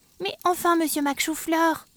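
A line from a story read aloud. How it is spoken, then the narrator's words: Plain. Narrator (French): dit Flora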